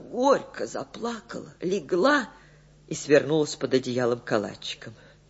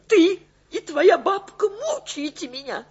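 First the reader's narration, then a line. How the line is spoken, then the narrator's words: Sobbing. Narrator (Russian): сказала она, всхлипнув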